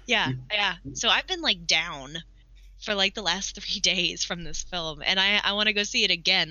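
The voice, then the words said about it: Slightly deeper, sick-sounding voice. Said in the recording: “I don't know if you can tell my voice is a little deeper. I got sick yesterday”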